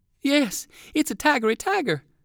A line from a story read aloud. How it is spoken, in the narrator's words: exclaimed the other boy